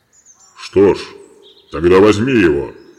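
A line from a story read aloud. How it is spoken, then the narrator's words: Monstrous bellow. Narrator (Russian): проревел бык с головой человека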